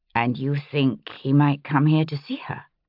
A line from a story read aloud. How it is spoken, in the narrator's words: I added gently